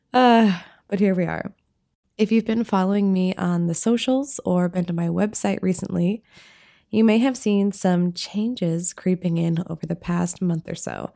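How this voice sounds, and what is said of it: Froggy, raspy voice. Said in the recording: “my voice is a little froggy... Recovering from a little bit of a cough... a nice raspy, in a cool way, vibe”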